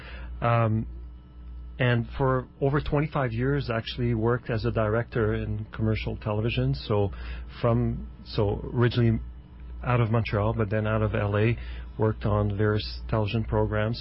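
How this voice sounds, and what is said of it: French-Canadian accent. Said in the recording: “I'm from Montreal, so the French accent.”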